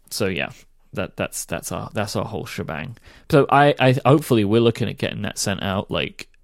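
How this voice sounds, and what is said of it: Sick, congested-sounding voice. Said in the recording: “I have a cold right now ... you're a little under the weather, and that's why you sound a little funny ... You sound funny.”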